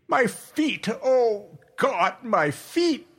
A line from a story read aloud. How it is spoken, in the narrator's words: he kept up a continual moaning